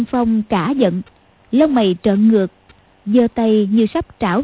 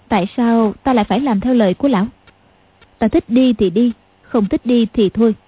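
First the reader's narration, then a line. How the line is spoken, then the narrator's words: Cold. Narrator (Vietnamese): Tiểu Long Nữ lạnh lùng nói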